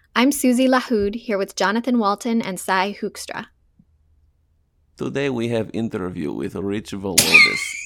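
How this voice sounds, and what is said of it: Put-on Russian accent. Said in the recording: “It would be easier if I did it in a Russian accent ... Do it in a Russian accent”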